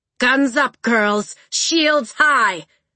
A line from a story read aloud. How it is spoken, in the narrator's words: Red Tooth shouted